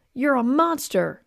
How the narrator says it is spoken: I yelled

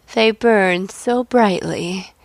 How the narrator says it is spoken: said Samoylenko, breathing out a wistful sigh

